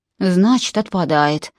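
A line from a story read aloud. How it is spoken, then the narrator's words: Sigh. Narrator (Russian): вздохнул Джон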